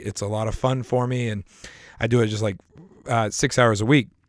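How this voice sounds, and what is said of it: Strained voice with coughing. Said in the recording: “I apologize for the sound of my voice today. I have had some sort of cough all week... I'm coughing right now.”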